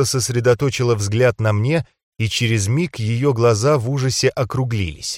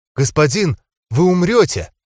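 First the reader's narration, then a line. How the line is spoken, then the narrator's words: Exclaiming. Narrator (Russian): воскликнула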